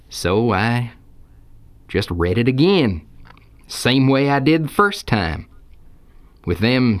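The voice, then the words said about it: Strong Texan accent. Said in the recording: “could you soften your accent a little bit? ... you asked for a Texan.”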